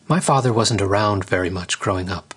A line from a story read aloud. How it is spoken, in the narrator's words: she said